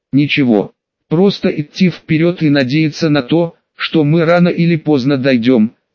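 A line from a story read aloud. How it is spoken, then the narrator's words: Calm. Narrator (Russian): спокойно ответил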